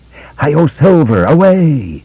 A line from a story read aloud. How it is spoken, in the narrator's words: he screamed triumphantly